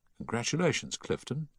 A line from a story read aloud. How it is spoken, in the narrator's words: he said softly